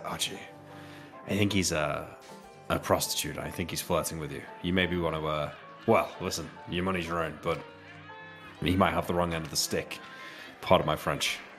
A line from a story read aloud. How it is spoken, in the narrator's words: I will whisper to Archie, and I'll say